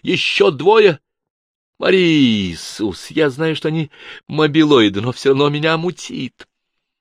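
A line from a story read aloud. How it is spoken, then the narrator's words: Cry out. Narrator (Russian): Денис вскрикнула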